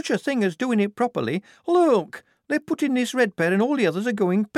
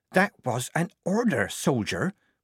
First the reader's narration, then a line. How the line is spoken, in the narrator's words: Polly whispered in her ear